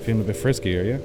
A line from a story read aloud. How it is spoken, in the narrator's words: he asked